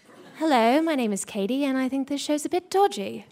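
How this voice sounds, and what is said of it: Put-on British accent. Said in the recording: “I can do a British one ... Very good.”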